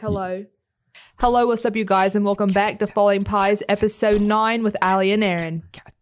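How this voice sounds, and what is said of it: Brief attempted New Zealand accent. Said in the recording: “What's up with that accent? ... You gave up on it really quickly ... I was trying to do a little bit of New Zealand”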